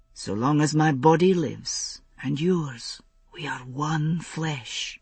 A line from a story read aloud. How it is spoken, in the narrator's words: he whispered